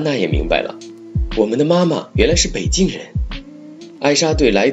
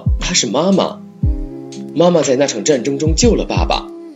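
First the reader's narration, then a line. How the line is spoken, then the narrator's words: Exclaiming. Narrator (Chinese): 艾莎叫道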